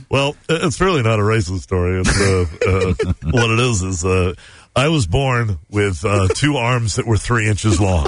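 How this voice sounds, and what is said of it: Imitates another person's voice. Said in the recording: “I'll be Bo ... I'll do my Bo impression.”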